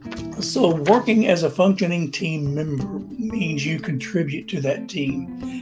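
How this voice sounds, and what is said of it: Strained, fading voice. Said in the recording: “Losing my voice here in the afternoon”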